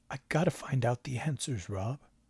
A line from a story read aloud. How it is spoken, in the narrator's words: he said at last, in a voice so low it was like a whisper